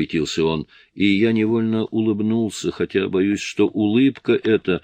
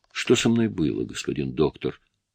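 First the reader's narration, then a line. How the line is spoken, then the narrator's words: Barely audible, parched, strained. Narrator (Russian): С трудом разлепив спекшиеся губы, еле слышно проговорил я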